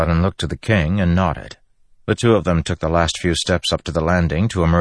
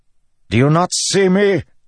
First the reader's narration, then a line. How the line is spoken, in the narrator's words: Elokar bellowed